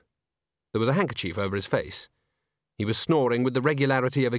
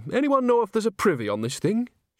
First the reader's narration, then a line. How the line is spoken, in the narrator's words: She added brightly